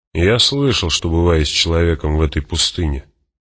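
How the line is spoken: Grumble. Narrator (Russian): буркнул он

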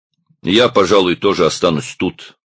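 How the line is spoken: Grumbling. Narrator (Russian): проворчал Одноглазый

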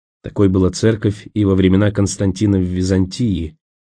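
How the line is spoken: Quiet remark. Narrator (Russian): тихо заметил Николас

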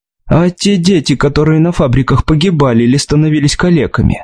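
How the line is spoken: Plain question. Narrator (Russian): спросила она

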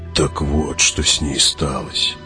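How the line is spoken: Muttering. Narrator (Russian): пробормотал Хават

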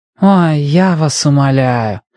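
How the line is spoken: Annoyed drawl. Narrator (Russian): досадливо протянула Сера

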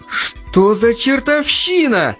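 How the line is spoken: Exclamation. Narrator (Russian): воскликнул он

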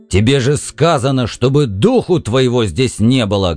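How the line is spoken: Loud bark. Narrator (Russian): гаркнул Сэм

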